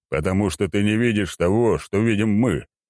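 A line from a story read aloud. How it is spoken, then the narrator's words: Scoffing general. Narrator (Russian): хмыкнул генерал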